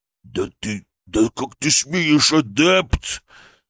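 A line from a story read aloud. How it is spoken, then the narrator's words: Hissing, indignant. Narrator (Russian): прошипел он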